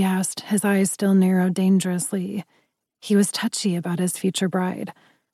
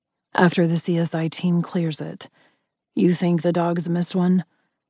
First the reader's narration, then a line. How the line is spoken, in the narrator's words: He asked quietly